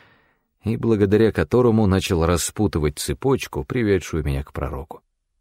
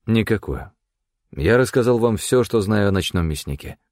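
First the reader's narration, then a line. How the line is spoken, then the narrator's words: Dry. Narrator (Russian): сухо произнес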